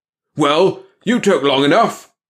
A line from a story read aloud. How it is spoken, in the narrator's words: he roared